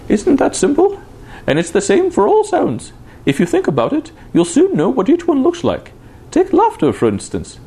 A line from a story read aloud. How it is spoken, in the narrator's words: she said, laughing brightly